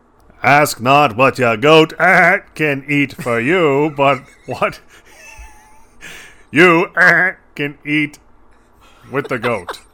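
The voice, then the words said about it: John F. Kennedy impression. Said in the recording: “Kennedy accent ... can you mix a goat Kennedy?”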